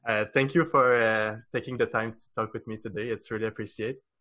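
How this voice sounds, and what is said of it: Non-native English accent. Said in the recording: “another episode in English ... easy to understand uh, with my accent ... your accent's not that bad”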